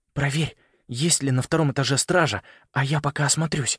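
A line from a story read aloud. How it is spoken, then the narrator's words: Whisper. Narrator (Russian): шепнул он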